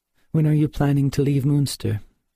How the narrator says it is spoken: she asked

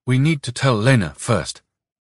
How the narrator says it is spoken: Nikolka answered anxiously

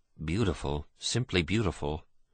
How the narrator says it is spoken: Michael managed to murmur

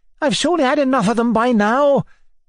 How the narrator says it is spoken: cried Zina angrily

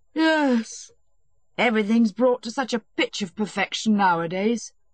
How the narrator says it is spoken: said Stepan Arkadyevitch with a moist and blissful yawn

